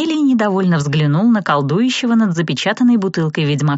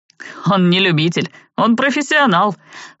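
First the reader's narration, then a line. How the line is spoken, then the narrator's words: Snorting. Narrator (Russian): хмыкнул Джад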